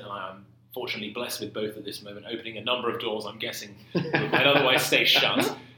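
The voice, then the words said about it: London English accent. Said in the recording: “Where is your accent from? ... I grew up in London.”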